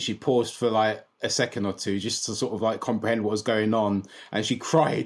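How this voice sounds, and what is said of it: Colloquial London accent. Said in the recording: “my very colloquial accent that I'm a Londoner through and through”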